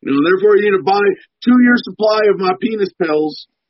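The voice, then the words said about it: Poor Alex Jones impression. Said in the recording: “worst Alex Jones impersonation”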